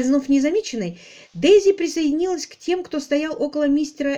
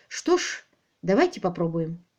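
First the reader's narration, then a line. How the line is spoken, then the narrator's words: Soft. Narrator (Russian): мягко сказала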